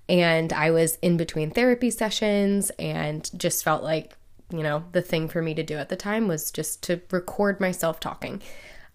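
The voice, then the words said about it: Low, subdued, unhappy voice. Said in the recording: “you will hear me in a really, really low place. You can hear it in my voice. My voice is going to sound very different ... I sound not so great and cheery”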